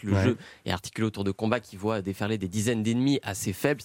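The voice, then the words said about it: Put-on Québécois accent, ironic tone. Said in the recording (French): “l'accent québécois et cette petite ironie”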